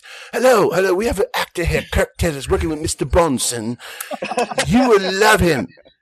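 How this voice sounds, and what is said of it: Put-on British accent. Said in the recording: “did a British accent ... I got in with a British accent”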